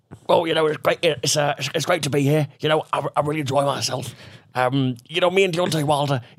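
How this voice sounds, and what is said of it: Tyson Fury impression. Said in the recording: “your Tyson Fury impression”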